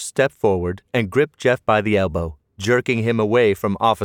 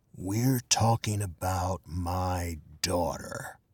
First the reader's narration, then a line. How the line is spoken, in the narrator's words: whispered hoarsely